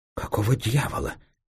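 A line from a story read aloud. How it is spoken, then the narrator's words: Faltering babble. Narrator (Russian): пролепетал Кранк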